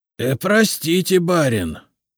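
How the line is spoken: Hoarse rasp. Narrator (Russian): прохрипел Слава

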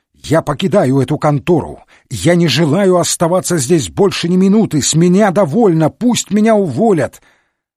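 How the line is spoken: Sudden yell. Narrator (Russian): Неожиданно Мейсон заорал

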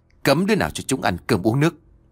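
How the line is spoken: Harsh, stern. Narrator (Vietnamese): ông còn gằn giọng nói

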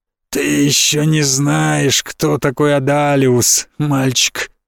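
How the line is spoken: Hoarse wheeze. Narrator (Russian): прохрипел он

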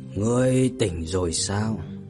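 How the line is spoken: Hoarse voice. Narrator (Vietnamese): một giọng nói khàn khàn cất lên

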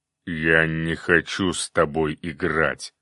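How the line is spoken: Demonic growl. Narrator (Russian): прорычал демон огня

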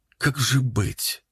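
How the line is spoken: Said quietly. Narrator (Russian): сказала она тихо

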